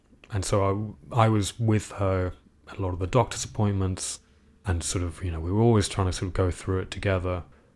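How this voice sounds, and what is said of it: British accent. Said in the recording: “I have a fairly convincing British accent”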